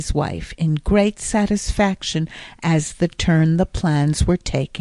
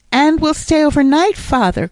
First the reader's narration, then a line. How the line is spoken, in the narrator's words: cried Jasper